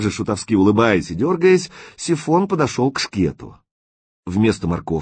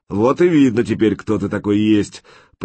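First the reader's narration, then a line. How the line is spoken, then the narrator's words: Thundering voice from above. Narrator (Russian): прогремел откуда-то сверху голос всемогущего Прохора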